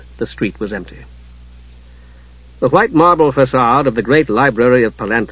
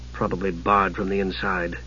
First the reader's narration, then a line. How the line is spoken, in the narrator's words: he muttered